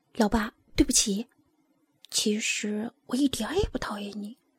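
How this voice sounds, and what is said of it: Quiet, soft-spoken child's line. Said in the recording (Chinese): “尼莫小声地说”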